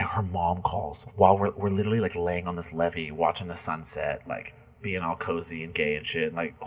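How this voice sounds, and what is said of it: Usual voice. Nothing is said of it.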